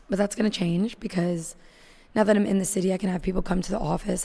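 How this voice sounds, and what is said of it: Weak, fading voice. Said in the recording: “my voice is like seriously dwindling”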